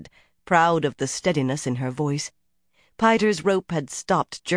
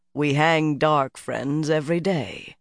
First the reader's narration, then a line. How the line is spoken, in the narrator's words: Saren answered dryly